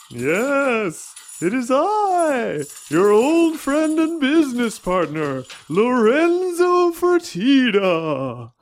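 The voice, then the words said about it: Spooky ghost-like voice. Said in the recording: “talking like a ghost?”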